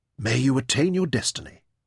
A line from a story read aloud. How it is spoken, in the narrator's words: he whispered